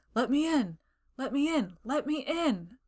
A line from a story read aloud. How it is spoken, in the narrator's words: He ... to shout huskily